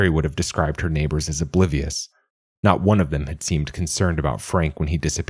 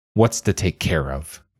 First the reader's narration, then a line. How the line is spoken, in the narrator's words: Mary scoffed